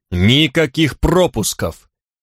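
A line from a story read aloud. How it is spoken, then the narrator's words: Barking. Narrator (Russian): рявкнул Черно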